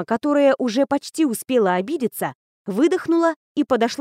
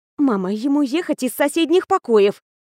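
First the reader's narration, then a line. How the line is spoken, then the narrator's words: Snapping. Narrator (Russian): огрызнулась я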